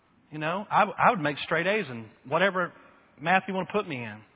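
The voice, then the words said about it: Texas drawl. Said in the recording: “my dialect or my Texas drawl”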